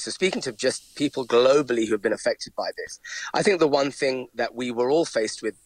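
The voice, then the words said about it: London English accent. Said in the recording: “as you might be able to tell from my accent, I'm from London”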